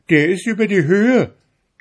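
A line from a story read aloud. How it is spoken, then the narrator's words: Laughing shout. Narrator (German): rief der Glasmann, und lachte jetzt so sehr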